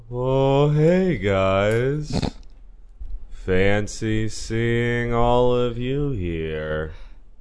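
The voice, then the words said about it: Very slow drawling character voice. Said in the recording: “has a character that speaks slower than ... speaks ... I'm clearly doing a character voice right now ... It's ridiculous that your voice can get any slower ... He is the sloth from Zootopia.”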